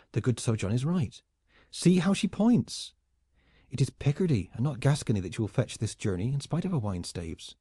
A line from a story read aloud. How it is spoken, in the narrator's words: cried a seaman